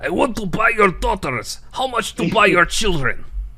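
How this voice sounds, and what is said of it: Fake Russian accent. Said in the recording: “in like a fake Russian accent”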